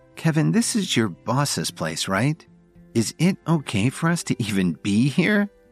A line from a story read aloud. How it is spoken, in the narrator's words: Lily asked nervously